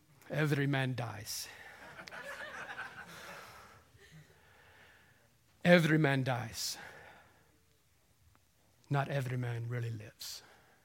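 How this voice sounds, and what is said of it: Poor imitation of a film character's accent. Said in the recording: “I know it's a horrible accent.”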